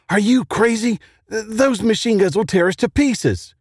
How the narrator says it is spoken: Charlie shouted back

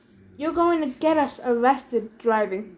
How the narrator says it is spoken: Thalia grumbled

